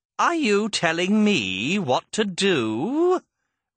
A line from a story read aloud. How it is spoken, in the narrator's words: Red sneered